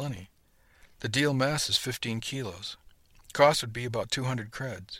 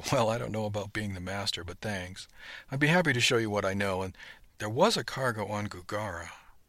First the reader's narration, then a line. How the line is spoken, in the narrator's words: he began in a kind of speculative tone